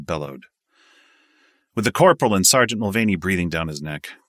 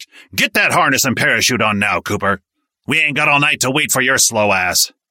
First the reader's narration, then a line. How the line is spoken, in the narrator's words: eyes bugged out and he barked